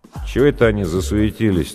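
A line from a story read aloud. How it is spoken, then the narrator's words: Lazy surprise. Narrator (Russian): так лениво удивился Гуляев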